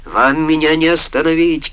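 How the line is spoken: Shouted. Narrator (Russian): крикнул Джеймс

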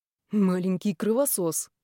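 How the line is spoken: Grumbled. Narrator (Russian): буркнул шеф

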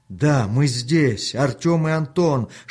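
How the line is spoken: Shouting at full strength. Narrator (Russian): что было сил, закричал Артем

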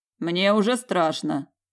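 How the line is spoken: Skeptical snort. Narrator (Russian): хмыкнул Аяр

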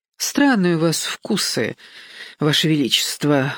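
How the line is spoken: Sigh. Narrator (Russian): вздохнула Симона

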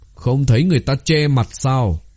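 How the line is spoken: Cold. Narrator (Vietnamese): Tiêu Thúc Ngạo lạnh lùng nói

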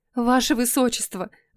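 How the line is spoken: Pleading. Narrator (Russian): взмолилась Камила

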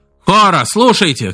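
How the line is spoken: Shouted. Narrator (Russian): крикнул Исида

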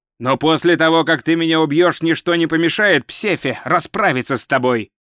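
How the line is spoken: Shout from the ground. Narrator (Russian): крикнул распростертый на земле всадник

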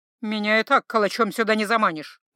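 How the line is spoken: Grumbled. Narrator (Russian): буркнула Горгулья

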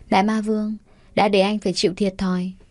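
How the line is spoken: Happy, smiling. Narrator (Vietnamese): An Kỳ mỉm cười hạnh phúc

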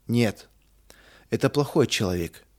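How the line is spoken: Sad. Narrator (Russian): печально заключил Рудик

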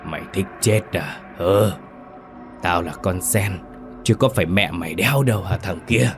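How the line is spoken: Harsh, hoarse, strange voice. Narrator (Vietnamese): bà Kiểm gằn giọng, cái thứ giọng ồm ồm khó nghe đầy xa lạ

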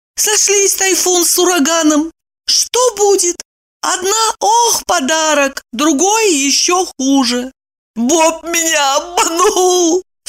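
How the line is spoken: Whining. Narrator (Russian): скулила Ева

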